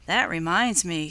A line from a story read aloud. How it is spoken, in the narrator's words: said Peter